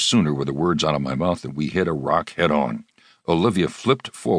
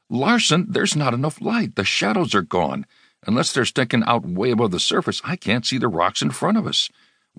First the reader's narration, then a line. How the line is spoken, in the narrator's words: as we entered the whitewater, Olivia cried out